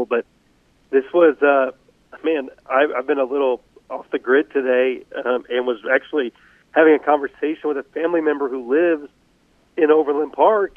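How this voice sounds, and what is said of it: Sick, under-the-weather voice. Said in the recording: “I apologize for how my voice sounds tonight. I'm a little under the weather, but I sound much worse than I actually feel.”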